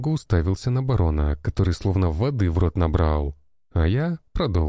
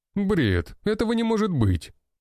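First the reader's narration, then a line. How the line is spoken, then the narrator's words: Exclaiming. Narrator (Russian): воскликнул один барон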